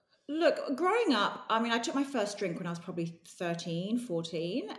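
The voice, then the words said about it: English London accent. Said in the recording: “Is that English accent there?... Yes, I'm from London”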